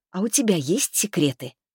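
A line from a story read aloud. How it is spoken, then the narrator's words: Quiet. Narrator (Russian): так же тихо произнесла я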